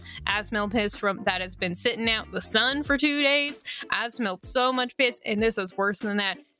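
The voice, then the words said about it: Put-on southern accent. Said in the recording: “I never get the southern accent from ... Uh, this is a delight.”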